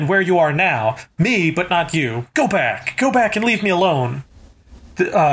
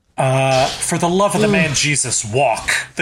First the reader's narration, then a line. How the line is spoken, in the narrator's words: the gunslinger said roughly